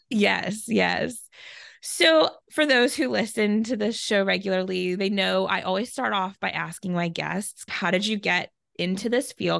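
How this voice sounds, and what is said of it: Voice a little off, sick. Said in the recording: “As you can hear, my voice is a little off. I'm fighting some bronchitis”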